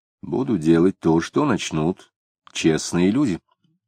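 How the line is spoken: Calm reply. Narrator (Russian): спокойно ответил Самгин

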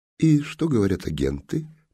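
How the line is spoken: Gentle curious inquiry. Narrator (Russian): мягко полюбопытствовал жандарм

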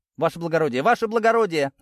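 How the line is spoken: Yelling. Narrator (Russian): завопили

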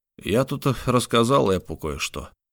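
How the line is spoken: Sigh. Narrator (Russian): вздохнул Тарп

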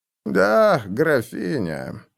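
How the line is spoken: Sad reply. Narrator (Russian): ответил Таубер, печально

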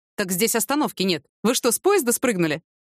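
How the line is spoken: Smirking. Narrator (Russian): усмехнулся дядя Вова

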